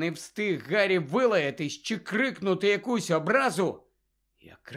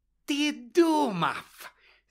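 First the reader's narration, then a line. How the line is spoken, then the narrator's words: Hissed. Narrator (Ukrainian): зашипіла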